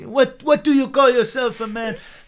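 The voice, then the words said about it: Bad put-on French accent. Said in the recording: “That's my terrible French accent. ... It doesn't sound French.”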